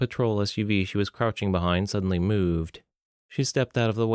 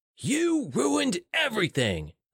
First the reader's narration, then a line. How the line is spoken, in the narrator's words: a man yelled